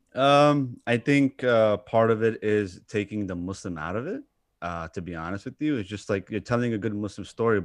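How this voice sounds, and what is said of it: New York accent. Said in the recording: “my accent, according to a lot of people, I speak like a New Yorker. I have New York slang.”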